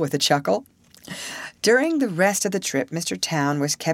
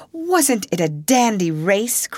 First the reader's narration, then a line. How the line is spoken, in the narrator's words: cried Alice